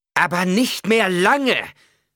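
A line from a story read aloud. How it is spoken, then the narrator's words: Angry shout. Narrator (German): rief Jessica zornig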